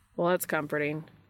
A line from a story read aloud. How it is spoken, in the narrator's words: Dean says dryly